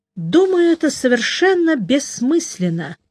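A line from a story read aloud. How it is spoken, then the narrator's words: Sighing. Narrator (Russian): вздохнул я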